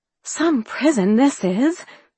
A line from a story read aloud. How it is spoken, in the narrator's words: Peggy exclaimed